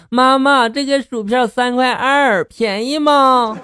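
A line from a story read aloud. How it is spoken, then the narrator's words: Child shouting. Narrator (Chinese): 小家伙就喊起来了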